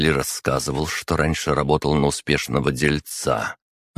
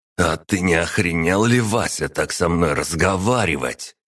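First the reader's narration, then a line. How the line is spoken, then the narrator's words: Hissing. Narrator (Russian): прошипел Арсений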